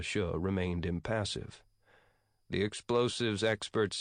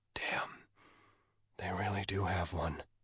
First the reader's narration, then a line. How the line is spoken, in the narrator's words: He whispered to Da Xia